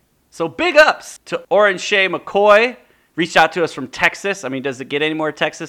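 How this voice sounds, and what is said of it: Usual voice. Nothing is said of it.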